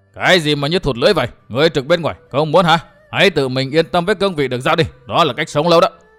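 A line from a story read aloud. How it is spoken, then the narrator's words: Fierce shout. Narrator (Vietnamese): Một hán tử mặt mày hung dữ trợn mắt quát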